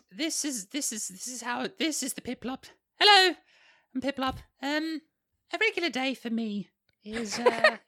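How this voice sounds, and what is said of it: Piplup character voice. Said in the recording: “I'm going to give him character voice ... it's a great voice. ... It's a great voice.”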